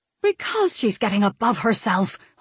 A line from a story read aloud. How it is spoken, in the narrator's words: Holbeck hissed